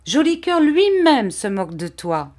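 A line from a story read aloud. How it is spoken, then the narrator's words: Exclaiming. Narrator (French): s'écriait Vitalis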